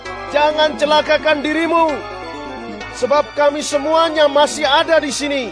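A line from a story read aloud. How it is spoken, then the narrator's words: Loud ringing cry. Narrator (Indonesian): Paulus berseru dengan suara nyaring, katanya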